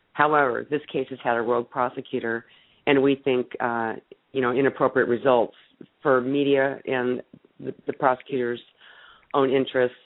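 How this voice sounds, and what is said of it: Voice sounds congested from a cold. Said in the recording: “I'm sorry, I've got a cold. ... I've had a cold all week.”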